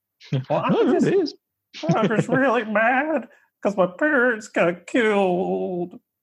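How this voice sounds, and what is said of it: Imitating Armin's voice. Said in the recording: “do an Armin voice”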